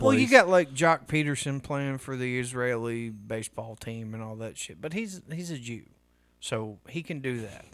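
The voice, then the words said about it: Southern American accent. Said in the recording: “it's just that southern accent don't help.”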